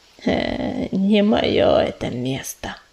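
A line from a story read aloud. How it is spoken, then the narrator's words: Growl. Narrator (Russian): рыкнула она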